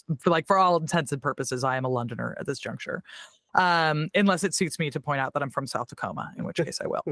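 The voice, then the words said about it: American accent. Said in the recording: “me having an American accent”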